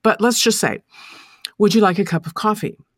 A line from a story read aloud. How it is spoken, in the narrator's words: She said, coldly, seductively, warmly, quickly